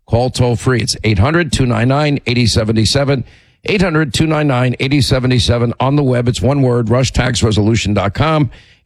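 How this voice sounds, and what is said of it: Hoarse voice from laryngitis. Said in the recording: “are we getting complaints over my laryngitis?”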